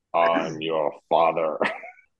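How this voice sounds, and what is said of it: Bad Darth Vader voice impression. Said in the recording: “worst Darth Vader impression”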